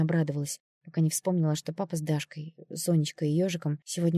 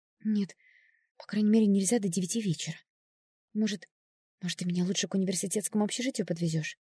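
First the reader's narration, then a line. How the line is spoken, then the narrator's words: Timid. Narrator (Russian): робко предложила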